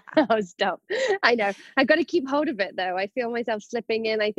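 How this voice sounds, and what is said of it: Non-American accent, distinctive A vowels. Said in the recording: “so envious over your accent. ... I see what you're doing with those A's there.”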